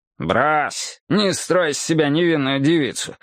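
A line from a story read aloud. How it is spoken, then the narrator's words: Contemptuous snort. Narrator (Russian): бандит презрительно фыркнул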